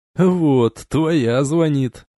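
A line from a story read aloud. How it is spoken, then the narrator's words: Laughing. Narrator (Russian): засмеялся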